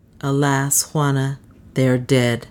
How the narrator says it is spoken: he answered solemnly

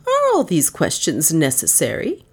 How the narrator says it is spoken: she queried sharply

